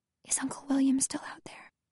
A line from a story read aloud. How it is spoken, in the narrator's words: whisper in her ear